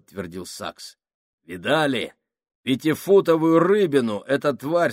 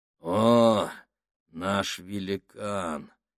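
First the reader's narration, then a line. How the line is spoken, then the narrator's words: Said gloomily. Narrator (Russian): мрачно сказал Сакс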